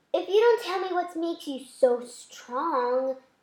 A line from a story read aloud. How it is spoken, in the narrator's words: Delilah moaned